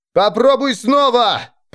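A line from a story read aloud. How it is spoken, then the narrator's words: Roared. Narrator (Russian): проревел он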